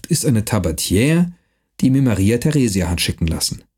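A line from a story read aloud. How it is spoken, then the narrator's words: Gentle. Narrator (German): sagte er sanft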